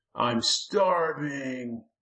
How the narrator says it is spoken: the Lurking whined

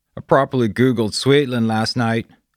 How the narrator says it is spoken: Bear shouted from the kitchenette

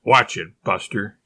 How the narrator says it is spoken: hotly warned

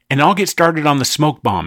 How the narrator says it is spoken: said Zack

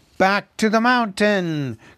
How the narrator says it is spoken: cried the dwarves, as if they had not heard him

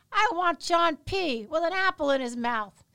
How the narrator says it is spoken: smiles and shouts into the next room

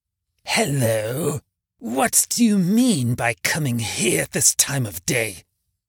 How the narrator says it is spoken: growled Scrooge, in his accustomed voice, as near as he could feign it

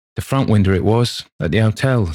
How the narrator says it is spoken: said the boy

